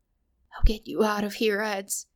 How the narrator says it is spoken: whispered

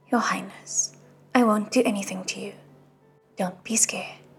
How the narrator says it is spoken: He said quietly

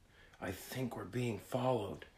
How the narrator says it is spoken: he whispered

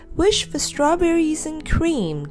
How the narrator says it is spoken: cried Fanny, who simply loved those

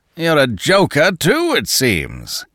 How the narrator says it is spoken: roared the other

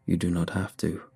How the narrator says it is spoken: the voice sighed

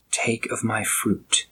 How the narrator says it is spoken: seductive allure tempting with whispers

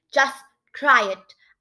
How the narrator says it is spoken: I cried in my bravest voice

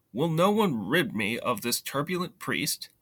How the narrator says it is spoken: Frustrated with the bishop's obstinacy, the king exclaimed

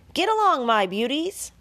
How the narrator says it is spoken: yelled Charlotte

